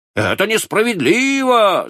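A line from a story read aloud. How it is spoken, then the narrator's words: Group of students shouting. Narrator (Russian): закричали все студенты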